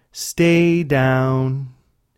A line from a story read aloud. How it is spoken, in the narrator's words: in a melodic, unified voice